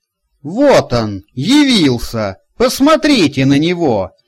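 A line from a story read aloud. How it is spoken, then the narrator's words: Angry exclamation. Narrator (Russian): гневно воскликнула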